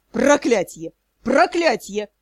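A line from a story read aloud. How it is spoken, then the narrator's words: Dull, broken roar. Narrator (Russian): взревел помещик, но голос был тусклый, будто надломленный встречным ветром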